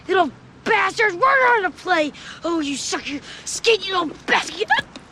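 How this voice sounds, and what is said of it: Yelling imitation of an angry coach. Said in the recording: “he's yelling”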